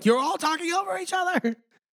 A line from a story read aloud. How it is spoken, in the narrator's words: Andy starts yelling